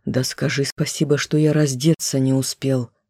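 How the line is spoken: Muttered. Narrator (Russian): буркнул он

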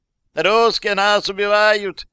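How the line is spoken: Shouts from several places. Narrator (Russian): закричали сразу в нескольких местах

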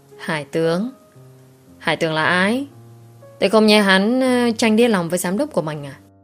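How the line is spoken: Sighing. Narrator (Vietnamese): Duy Nam thở dài một tiếng

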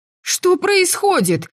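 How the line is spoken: Wailing over a storm. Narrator (Russian): перекрикивая шторм, взвыла я

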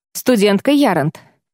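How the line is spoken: Sudden angry shout. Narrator (Russian): Окрик прозвучал неожиданно и сердито

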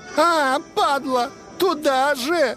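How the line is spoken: High-pitched shriek. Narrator (Russian): она высоким голосом провизжала

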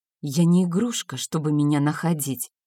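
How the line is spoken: Whispered. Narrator (Russian): прошептала я

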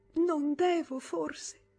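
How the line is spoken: Sobbing. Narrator (Italian): singhiozzò

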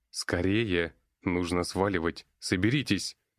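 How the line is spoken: Barked. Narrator (Russian): рявкнул я

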